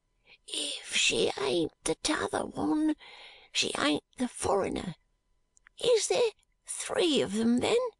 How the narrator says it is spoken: he hoarsely whispered Charley

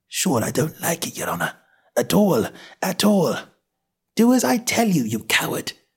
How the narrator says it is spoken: whispers

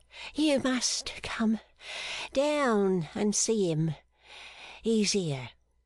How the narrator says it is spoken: said Maggie, panting for breath

